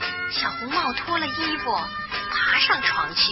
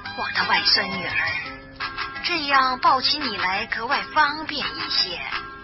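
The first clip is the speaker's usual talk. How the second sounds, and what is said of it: Wolf faking grandma's voice. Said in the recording (Chinese): “大灰狼装着姥姥的声音说”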